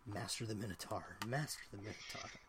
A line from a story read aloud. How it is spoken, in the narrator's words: muttering to himself